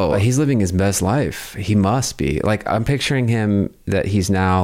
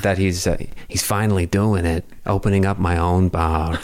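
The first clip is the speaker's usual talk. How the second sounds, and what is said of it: Good impression of Steve. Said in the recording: “your Steve impression ... You actually legitimately do a good impression of what, Steve.”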